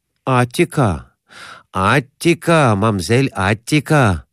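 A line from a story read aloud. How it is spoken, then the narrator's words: Laughing chime-in. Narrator (Russian): подхватил Конурин, смеясь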